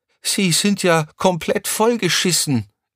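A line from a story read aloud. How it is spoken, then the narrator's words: Shout. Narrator (German): rief Crescentia Rausch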